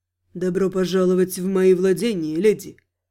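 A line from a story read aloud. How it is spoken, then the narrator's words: Velvety greeting. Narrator (Russian): Бархатным голосом приветствовал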